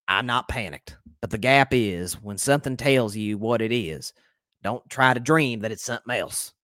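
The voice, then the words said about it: Imitates another person's voice. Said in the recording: “my best Jerry impression ... forgive me if it's not that good”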